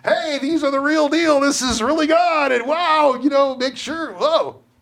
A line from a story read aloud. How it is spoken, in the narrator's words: person who tells people their future and keeps yelling